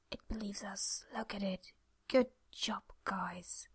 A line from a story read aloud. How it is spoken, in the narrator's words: Jack waited, then whispered